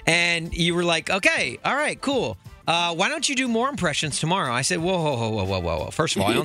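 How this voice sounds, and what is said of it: Usual voice. Nothing is said of it.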